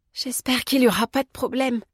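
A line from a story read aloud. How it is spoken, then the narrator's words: Sigh. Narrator (French): soupira Anna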